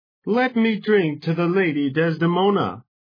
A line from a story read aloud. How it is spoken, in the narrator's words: he cried